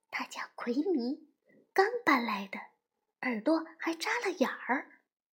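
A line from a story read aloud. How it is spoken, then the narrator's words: Low voice. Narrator (Chinese): 安娜低声说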